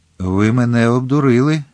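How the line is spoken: Stern. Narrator (Ukrainian): суворо мовив кардинал

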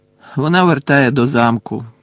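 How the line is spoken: Low grumble. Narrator (Ukrainian): буркнув він неголосно

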